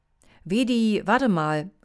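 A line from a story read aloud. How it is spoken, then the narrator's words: Calling out. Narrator (German): rief Tiki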